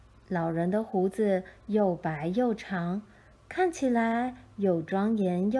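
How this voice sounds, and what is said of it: Usual voice. Nothing is said of it.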